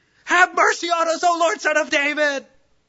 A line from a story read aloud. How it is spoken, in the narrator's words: They start screaming